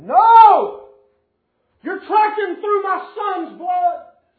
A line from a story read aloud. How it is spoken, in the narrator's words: And the dad got out screaming